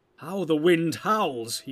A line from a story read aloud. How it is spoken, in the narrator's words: he cried